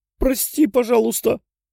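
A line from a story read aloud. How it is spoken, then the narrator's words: Pleading. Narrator (Russian): взмолился парень, увидев рассерженное лицо Тео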